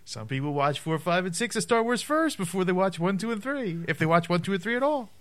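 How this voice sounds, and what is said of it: Jewish vaudevillian comedian-style voice. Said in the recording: “Why are you talking like Jerry Seinfeld? ... you sound like a Jewish vaudevillian guy.”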